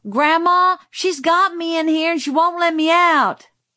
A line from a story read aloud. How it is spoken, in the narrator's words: Francis yelled